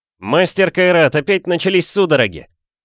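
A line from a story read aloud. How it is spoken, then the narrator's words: Shouting. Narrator (Russian): крикнул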